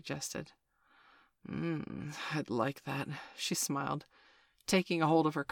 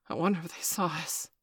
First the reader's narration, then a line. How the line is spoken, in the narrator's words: Steph gasped